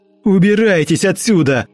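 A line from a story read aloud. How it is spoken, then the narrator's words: Full-voiced shout. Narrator (Russian): выкрикнул Антон уже в полный голос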